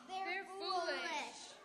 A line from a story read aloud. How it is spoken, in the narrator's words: Some people laughed and said